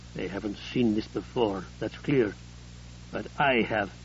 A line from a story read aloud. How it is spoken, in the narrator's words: Collier said grimly